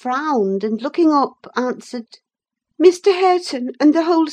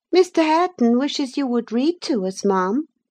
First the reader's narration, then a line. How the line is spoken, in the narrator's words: I said immediately